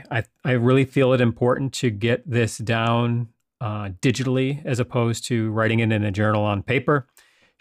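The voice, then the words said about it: Slightly hoarse voice. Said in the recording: “I have a little problem with my voice ... my voice is a little hoarse”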